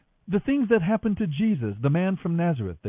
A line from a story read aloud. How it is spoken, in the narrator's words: they said